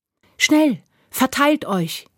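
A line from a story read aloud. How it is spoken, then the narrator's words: Calling out. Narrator (German): rief Asti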